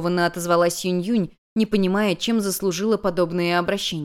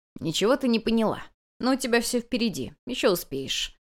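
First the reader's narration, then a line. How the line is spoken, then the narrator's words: Muffled, dull reply. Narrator (Russian): глухо ответила хозяйка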